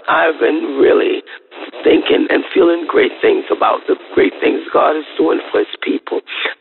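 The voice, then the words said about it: Rough, sick-sounding voice. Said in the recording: “my voice sounds so horrible. I've been under the weather”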